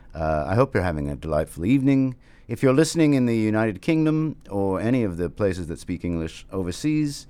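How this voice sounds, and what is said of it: Fake posh BBC-style British accent. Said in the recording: “my terrible British accent, which I feel is possibly too BBC or very, very fake”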